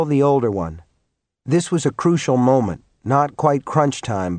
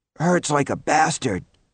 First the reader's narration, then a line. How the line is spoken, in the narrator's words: Norman wheezed